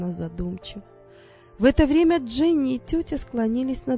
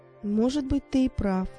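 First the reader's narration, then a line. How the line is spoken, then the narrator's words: Mother agreeing, soft sigh. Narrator (Russian): согласилась мама Дженни и тихонько вздохнула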